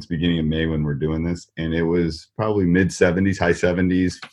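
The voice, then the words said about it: Wisconsin Midwestern accent. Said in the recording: “I am enjoying your Wisconsin accent. Enjoying it a lot ... there's definitely a Midwestern one”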